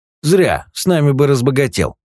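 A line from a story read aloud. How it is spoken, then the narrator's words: Older man's snort. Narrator (Russian): Хмыкнул старший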